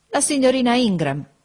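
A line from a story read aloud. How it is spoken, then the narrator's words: Widow exclaiming. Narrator (Italian): esclamò la vedova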